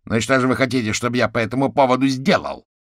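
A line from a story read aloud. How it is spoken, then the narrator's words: Barked by caterpillar. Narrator (Russian): рявкнул гусеница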